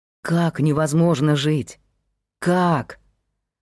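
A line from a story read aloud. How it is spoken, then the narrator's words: Near groan. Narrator (Russian): Павел едва не застонал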